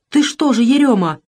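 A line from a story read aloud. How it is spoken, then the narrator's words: Startled, frightened. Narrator (Russian): испуганно встрепенулась Авдотья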